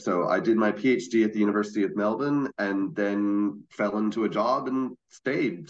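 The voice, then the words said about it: American accent. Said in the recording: “going back to the US ... the accent doesn't go away”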